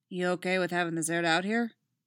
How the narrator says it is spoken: asked

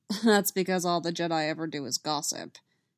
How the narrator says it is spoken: Mace said dryly

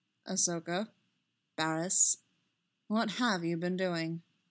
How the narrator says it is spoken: he said gravely

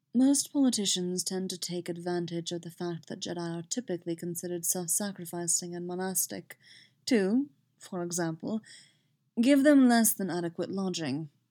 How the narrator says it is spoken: says more quietly

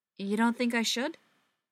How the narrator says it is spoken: she asks

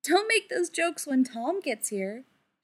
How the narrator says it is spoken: she laughed

